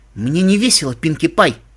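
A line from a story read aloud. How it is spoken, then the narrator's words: Quiet dangerous voice. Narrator (Russian): сказала тихим и опасным голосом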